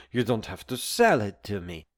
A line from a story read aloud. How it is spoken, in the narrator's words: muttered